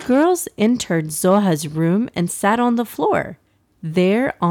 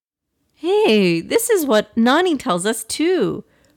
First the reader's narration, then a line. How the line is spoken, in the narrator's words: Aksa exclaimed